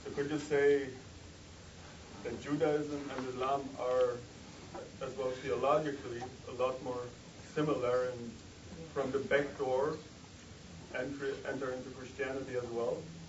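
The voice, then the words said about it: German accent. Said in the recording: “you have a kind of a German accent.”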